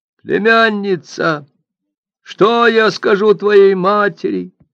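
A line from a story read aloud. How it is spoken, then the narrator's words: Exclamation. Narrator (Russian): воскликнул он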